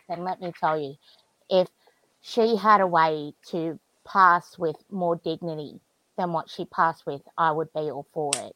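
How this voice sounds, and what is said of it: Emotional, strained speaking voice. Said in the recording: “I'm getting a little emotional”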